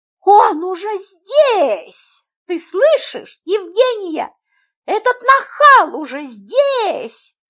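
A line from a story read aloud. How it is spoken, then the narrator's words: Yelling. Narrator (Russian): Завопила она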